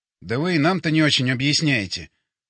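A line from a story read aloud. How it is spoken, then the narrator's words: Scoffing grunt. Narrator (Russian): хмыкнул я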